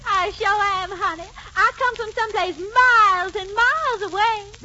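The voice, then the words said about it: Character voice with a regional accent. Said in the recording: “I can tell by your accent.”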